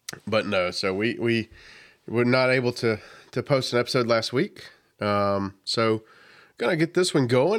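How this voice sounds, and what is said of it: Congested, deep sick voice. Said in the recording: “I'm a little under the weather, dealing with some, I started out allergies, but now I think it's turned into a nice little lovely sinus infection. So I've got my big boy voice on today ... radio voice”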